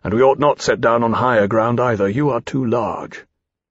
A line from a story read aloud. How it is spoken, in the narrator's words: Lawrence said grimly